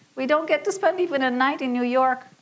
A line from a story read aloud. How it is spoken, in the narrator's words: nearly wailed